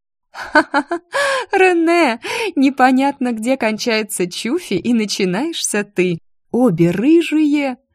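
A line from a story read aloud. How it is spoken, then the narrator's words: Laughing. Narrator (Russian): Мелани рассмеялась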